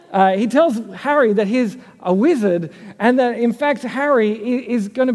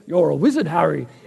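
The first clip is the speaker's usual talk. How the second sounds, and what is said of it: Weak Hagrid impression. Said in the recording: “That was my Hagrid impression. It wasn't very good.”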